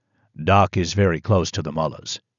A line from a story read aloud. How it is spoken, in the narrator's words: Yamin said to me, his voice low and calm